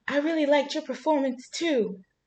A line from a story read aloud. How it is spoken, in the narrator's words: She finally squeaks out